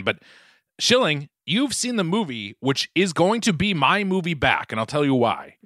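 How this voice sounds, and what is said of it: Boston accent. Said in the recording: “my Boston accent has just creeped back so much... I hear it. It's really crept back in.”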